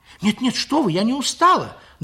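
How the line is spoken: Frightened answer. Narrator (Russian): Даже испуганно, ответила Лиля

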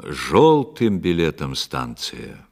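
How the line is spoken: Loud announcement. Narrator (Russian): кондуктор громко возглашал на весь вагон

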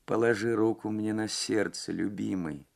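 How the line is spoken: Clear, faint, distant voice. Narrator (Russian): сказала она ясным, но еле слышным голосом, прозвучавшим точно издалека

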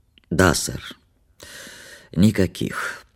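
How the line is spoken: Sleepy hoarse, stifling yawn. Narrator (Russian): подтвердил он сонно своим хриплым голосом без особого почтения и с трудом подавил зевок

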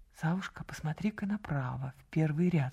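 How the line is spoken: Whisper. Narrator (Russian): шепнула она

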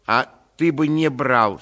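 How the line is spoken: Angry lady. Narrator (Russian): сердито заметила барыня

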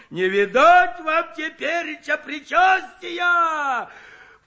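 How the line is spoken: Mock horror shout. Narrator (Russian): В притворном ужасе закричал Куженков

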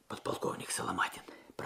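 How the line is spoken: Whispered. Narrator (Russian): прошептал Алексей

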